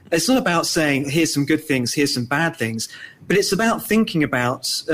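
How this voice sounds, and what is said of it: British London accent. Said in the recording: “I'm certainly very pleased to be British, as your listeners can tell from my accent, growing up in London.”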